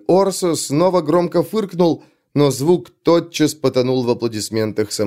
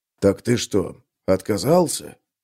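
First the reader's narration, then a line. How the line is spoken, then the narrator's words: Whispered question. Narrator (Russian): шепотом спросил Гловард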